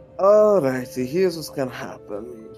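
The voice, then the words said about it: Put-on Scottish accent. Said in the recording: “got a Scottish accent?”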